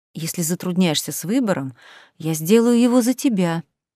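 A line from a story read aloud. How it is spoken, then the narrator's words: Hot whisper. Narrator (Russian): вновь жарко прошептали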